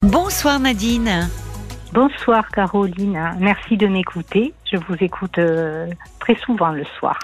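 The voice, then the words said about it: Slight southern French accent. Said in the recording (French): “Vous avez un petit accent du sud.”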